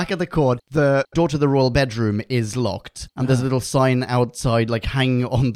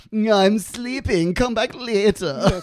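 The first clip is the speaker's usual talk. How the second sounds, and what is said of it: Impression of James I. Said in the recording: “doing his best impression of James I”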